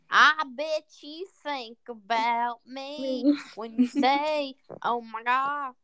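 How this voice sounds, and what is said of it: Put-on country accent. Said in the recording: “That was me being country.”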